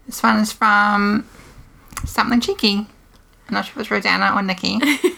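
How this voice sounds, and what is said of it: New Zealand accent. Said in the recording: “the New Zealand accent is a favourite”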